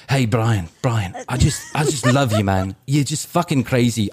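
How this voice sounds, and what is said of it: Poor put-on British accent. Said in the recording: “I'm going to do a horrible British accent”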